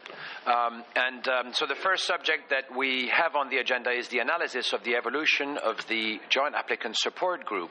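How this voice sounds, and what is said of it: Speaks with a non-native accent. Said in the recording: “Sorry for my accent.”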